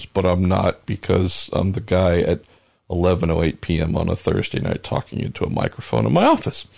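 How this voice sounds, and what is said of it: Slightly hoarse voice. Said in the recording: “my voice is getting a little hoarse”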